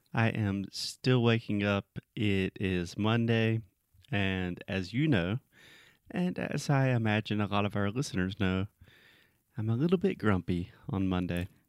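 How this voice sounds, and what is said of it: Sleepy-sounding voice. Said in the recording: “you sound sleepy.”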